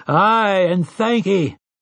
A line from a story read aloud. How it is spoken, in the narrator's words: they had roared their answer